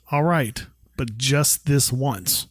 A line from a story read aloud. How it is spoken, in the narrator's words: Carol firmly says